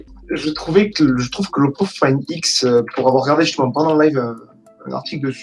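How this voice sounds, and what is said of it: Southern French accent. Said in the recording (French): “tu as un bon accent du Sud”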